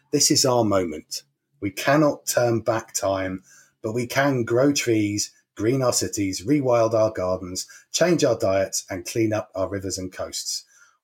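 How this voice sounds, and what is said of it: Advert voiceover announcer voice. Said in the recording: “put on my special voiceover voice ... sounds like one of the advert lead-ins”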